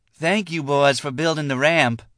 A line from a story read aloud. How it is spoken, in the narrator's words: Dupree added in a girlish voice